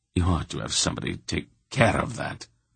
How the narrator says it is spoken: Silk muttered

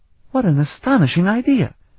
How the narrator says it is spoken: Afriel exclaimed

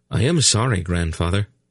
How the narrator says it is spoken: he apologized quickly

